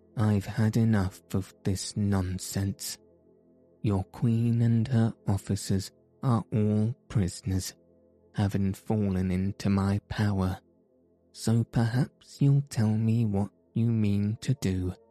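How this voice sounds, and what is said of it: Stern character voice. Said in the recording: “in a stern voice”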